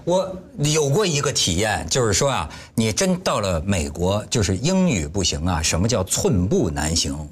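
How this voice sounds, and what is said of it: Mandarin with Dongguan accent. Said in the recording (Chinese): “我有这个东莞口音的普通话”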